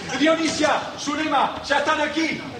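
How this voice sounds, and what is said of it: Shouting loudly. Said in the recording (Spanish): “no grites. No grites”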